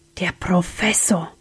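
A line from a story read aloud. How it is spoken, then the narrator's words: Whispering. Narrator (German): wisperte Sam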